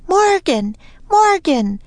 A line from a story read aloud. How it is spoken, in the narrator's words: Annie yelled